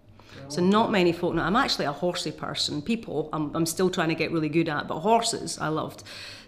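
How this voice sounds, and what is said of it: Non-posh regional accent. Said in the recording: “my accent, I'm not particularly posh”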